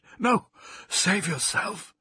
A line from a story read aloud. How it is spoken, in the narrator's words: Thomas gasped